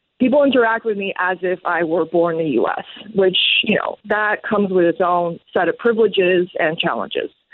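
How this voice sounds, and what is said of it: Strong American accent. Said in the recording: “I have a strong American accent.”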